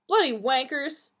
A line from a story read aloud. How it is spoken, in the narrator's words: she yelled